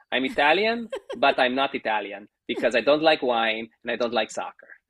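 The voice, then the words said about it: Put-on Italian accent. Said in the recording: “I'm doing the accent.”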